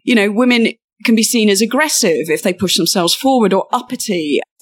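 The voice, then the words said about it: British accent. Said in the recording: “as her accent gives away, she practices in the UK”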